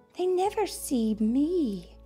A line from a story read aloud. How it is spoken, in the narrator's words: sighed the moon